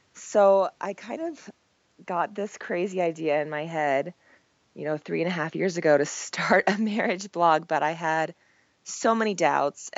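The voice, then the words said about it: Croaky, low voice from a cold. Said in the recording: “I have a cold, so my voice is super croaky and I kind of sound like a man”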